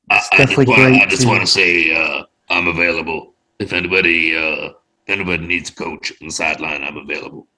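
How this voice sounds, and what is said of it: Imitates another person's voice. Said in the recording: “his Edward Ron impression is a lot better than it really is ... See, that actually wasn't terrible.”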